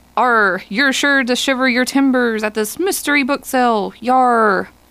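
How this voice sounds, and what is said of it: Playful pirate voice. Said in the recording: “Talk Like a Pirate ... hopefully you won't hear me talk like a pirate again tonight”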